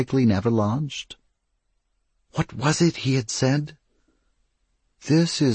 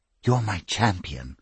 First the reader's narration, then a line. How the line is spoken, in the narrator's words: she whispered